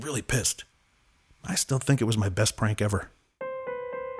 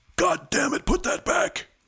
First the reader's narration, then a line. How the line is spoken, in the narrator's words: Rick he screamed